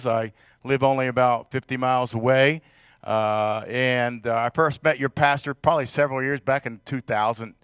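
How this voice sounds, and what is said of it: Southern US accent. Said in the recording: “You can tell I'm from the south here a little bit with my accent”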